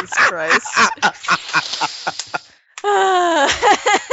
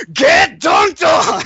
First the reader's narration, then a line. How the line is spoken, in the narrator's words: just yelling